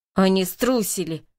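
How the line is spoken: Growled from darkness. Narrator (Russian): прорычал голос во мраке

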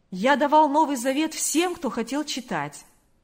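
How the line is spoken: Clear ringing voice. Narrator (Russian): произнес он чистым звонким голосом

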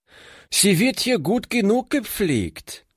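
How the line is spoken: Calling out. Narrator (German): rief

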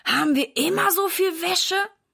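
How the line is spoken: Groaning. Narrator (German): stöhnt Silas

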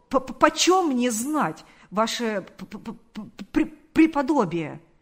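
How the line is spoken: Hesitant stammer. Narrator (Russian): сказал он, запинаясь

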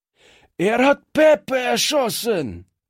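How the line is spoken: Shout. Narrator (German): schrie einer der Strolche

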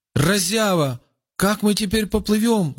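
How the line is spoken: Shouting. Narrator (Russian): закричал Рауф

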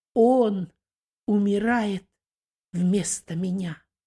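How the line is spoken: Calm address. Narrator (Russian): второй преступник, спокойно переносящий страдания, обратился к первому

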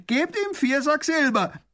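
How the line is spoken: Prisoner calling out. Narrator (German): ruft der Gefangene

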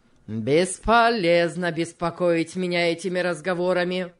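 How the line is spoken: Rude objection. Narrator (Russian): грубо возразил

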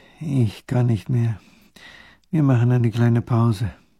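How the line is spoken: Exhausted moaning. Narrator (German): der kleine Großherzog stöhnt

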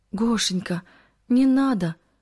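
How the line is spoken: Pleading. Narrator (Russian): взмолилась Кристина

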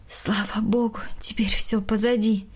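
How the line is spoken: Relieved sigh. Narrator (Russian): вздохнула Галина Яковлевна

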